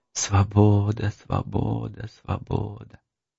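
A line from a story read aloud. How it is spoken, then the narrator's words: Quiet whisper. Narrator (Russian): кто-то шепчет тихо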